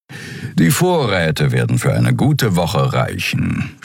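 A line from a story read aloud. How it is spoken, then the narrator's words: Purring. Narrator (German): schnurrte Suran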